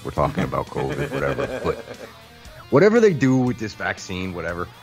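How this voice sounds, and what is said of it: Imitates another person's voice. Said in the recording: “I make fun of Fauci. I'm doing the voice.”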